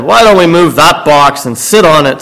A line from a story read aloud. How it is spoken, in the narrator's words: said another